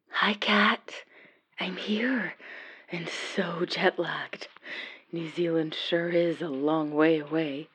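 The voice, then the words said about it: Whispering. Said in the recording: “Sorry about the whispering.”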